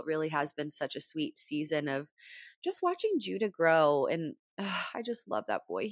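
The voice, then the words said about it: Rough, congested voice. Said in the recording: “my allergies are really bad. So my voice is kind of yucky.”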